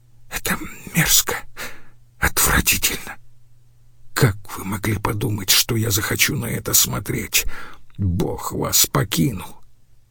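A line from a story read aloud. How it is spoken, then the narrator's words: Whisper turning to sobs. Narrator (Russian): Его шепот перешел в отчаянные всхлипы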